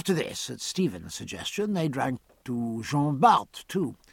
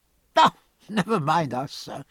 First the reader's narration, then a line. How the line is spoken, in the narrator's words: replied Jean-Pierre with a laugh